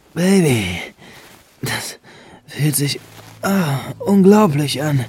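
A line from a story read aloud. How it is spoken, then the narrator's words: Louder moaning. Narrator (German): stöhnte Benjamin nun etwas lauter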